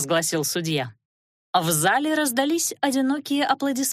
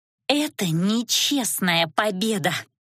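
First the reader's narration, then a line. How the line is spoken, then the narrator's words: Angry hiss. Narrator (Russian): злое шипение Корнелиэль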